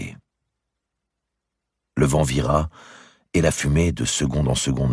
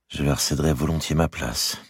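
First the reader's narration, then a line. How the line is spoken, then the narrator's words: Murmur. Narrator (French): murmura Charles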